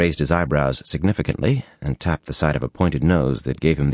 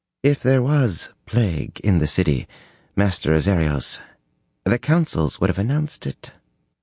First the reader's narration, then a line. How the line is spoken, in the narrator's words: the slim woman said calmly